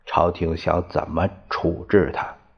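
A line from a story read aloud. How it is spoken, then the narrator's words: Soft question. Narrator (Chinese): 他轻声问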